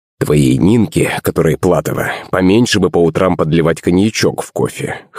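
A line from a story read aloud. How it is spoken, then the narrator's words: Smirking snort. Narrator (Russian): хмыкнул Иван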